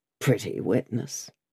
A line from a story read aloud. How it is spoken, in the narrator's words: he muttered